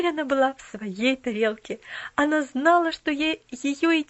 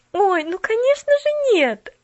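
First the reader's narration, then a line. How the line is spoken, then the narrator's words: Exclaimed. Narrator (Russian): Воскликнула Пуляна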